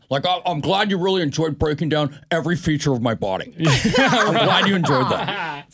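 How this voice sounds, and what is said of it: Good impression of another person. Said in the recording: “It's a pretty good impression.”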